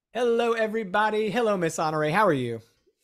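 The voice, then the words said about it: Loud, yelling voice. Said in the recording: “not yelling too loud. I'm yelling right into my microphone”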